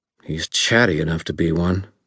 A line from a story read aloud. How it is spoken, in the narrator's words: Freitas growled